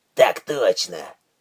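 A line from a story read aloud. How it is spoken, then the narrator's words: Grumbling mutter. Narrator (Russian): пробурчал Уорд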